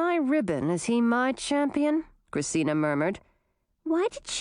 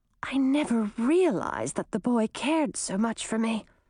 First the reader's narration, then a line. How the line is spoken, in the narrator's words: Chartreuse whispered